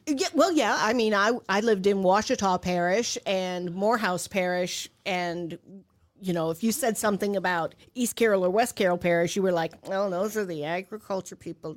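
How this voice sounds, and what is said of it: Heavy Louisiana Southern accent. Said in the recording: “you still have a very heavy accent. You still love New Orleans. ... It's a heavy accent. ... it's there sometimes. ... It's worse when she's right. down south.”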